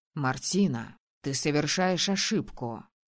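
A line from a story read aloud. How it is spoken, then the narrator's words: Muffled, curt. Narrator (Russian): глухо бросил Витор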